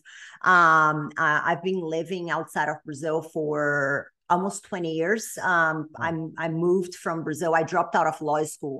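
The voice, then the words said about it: Brazilian accent. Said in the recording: “I'm originally from Brazil, which people are probably going to be able to tell by the accent.”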